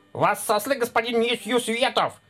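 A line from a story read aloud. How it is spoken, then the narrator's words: Rapid patter. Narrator (Russian): протараторил он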